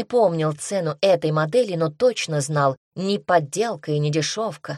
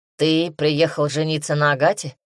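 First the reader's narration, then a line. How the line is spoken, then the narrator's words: Sigh. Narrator (Russian): Мэрил вздохнул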